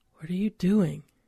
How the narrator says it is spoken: I asked in a hushed voice

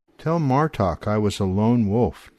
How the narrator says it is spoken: Dana says

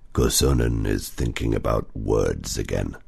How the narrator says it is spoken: Otso growled

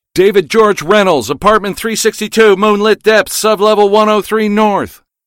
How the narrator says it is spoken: I yelled

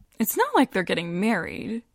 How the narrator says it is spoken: Joanna says with a breezy laugh

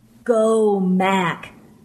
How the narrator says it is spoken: he said in that distorted voice

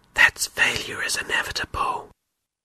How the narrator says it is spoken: One of the bad beliefs said in a whisper

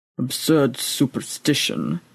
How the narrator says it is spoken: muttered the old priest into his breather

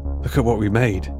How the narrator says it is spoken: he said

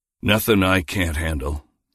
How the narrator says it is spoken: he muttered

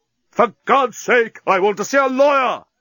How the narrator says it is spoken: Leovinus screamed at the top of his voice

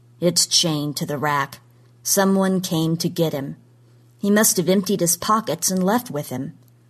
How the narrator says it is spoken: said flatly

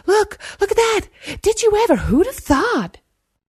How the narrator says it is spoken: jabbering excitedly

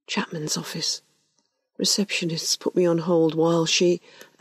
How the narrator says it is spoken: Covering the mouthpiece, he whispered

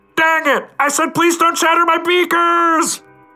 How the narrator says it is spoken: Outside, Carlos yells

